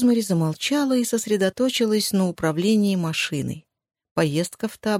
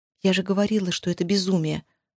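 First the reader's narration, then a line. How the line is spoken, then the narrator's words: Muttered. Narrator (Russian): пробормотала Рия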